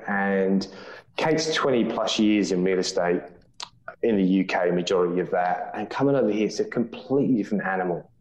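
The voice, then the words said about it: English accent. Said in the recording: “the accent gives it away. We're Poms”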